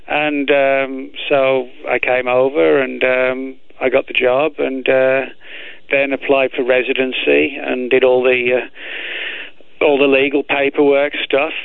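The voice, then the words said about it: British accent, slightly faded. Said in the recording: “I hear your British accent is fading a bit.”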